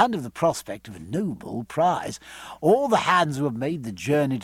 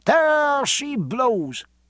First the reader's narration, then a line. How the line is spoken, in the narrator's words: cried Stephen, together with a score of his shipmates